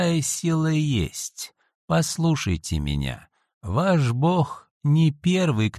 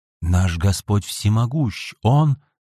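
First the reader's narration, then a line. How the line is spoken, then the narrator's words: Protesting, breaking off. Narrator (Russian): запротестовал было Аргантино, но тут же осекся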